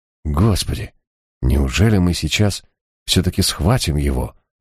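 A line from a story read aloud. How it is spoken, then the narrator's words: Breathless exhale. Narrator (Russian): выдохнул Ор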